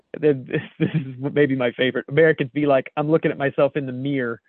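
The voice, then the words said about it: American Maryland accent. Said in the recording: “it's just exactly my accent. Somebody says, this is all literally Maryland”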